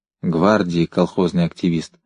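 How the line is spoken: Low-voiced prompt. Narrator (Russian): вполголоса подсказал Резчиков

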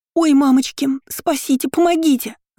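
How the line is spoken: Panicked wailing scream. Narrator (Russian): завопила она заполошным голосом

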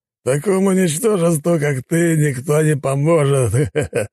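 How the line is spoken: Scornful laughter. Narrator (Russian): расхохотался он

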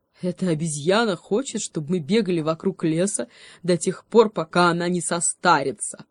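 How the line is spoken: Cheetah laughing loudly. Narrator (Russian): расхохотался гепард

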